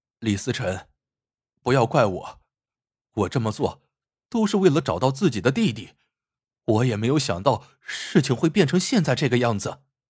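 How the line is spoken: Serious, earnest. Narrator (Chinese): 秦笑 一本正经的 说道

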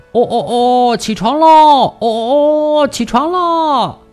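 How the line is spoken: Rooster crowing loudly. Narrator (Chinese): 公鸡…扯开嗓子大声地叫

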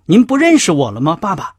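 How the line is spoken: Shouting. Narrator (Chinese): 拜伦喊道

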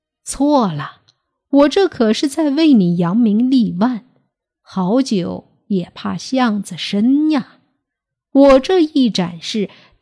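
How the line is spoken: Loud laughter. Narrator (Chinese): 棍祖哈哈大笑

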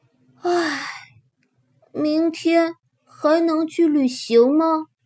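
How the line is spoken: Admiring, then sighing question. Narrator (Chinese): 吉姆赞叹着，紧接着又叹口气问

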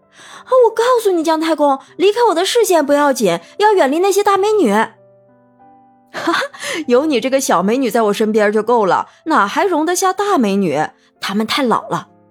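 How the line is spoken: Shouting into phone. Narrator (Chinese): 文玉哥冲着手机叫喊道

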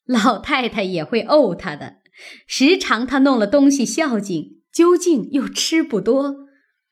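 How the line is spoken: Laughing. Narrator (Chinese): 薛姨妈笑道

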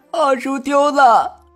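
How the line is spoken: Crying. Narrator (Chinese): 贾兰哭着说

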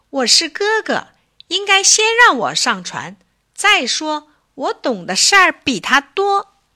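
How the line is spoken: Anxious loud shout. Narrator (Chinese): 乔尼急了，他大声叫起来

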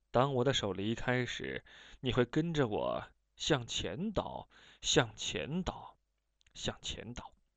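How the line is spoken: Low voice. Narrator (Chinese): 我低声说

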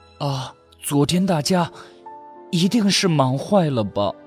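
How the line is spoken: Hoarse, nervous muttering. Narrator (Chinese): 灶炕猫的心顿时砰砰地跳了起来，它声音沙哑地自言自语道

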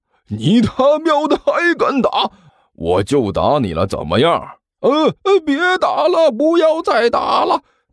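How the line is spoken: Hoarse, desperate roar. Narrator (Chinese): 刘阿贝一边声嘶力竭的大声吼着

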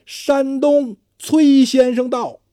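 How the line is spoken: Loud announcement. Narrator (Chinese): 一个下人喊

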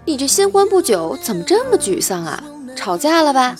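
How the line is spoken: Plain. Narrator (Chinese): 男子说道

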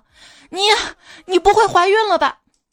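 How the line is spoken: Sudden shout. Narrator (Chinese): 木点三一个急转身，冲他女友喊道

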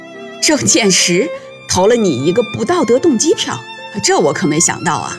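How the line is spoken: Laughing. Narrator (Chinese): 韩楚风笑着说

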